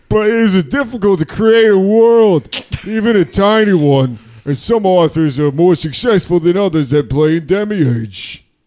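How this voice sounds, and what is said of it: Prohibition-era Chicago mobster accent. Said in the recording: “Try like Chicago mobster, like Prohibition era mobster.”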